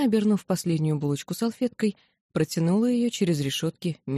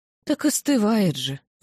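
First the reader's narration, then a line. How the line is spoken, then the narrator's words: Sighing. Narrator (Russian): вздохнула миссис Макстон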